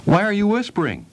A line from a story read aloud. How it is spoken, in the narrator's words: shouted Harriet